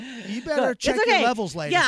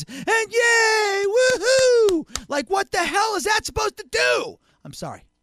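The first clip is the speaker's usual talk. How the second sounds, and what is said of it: Yelling loudly into the microphone. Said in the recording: “I'm yelling on the mic. ... You're fucking yelling right into the microphone”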